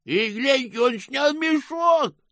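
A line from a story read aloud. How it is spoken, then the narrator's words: Shout. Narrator (Russian): выкрикнул кто-то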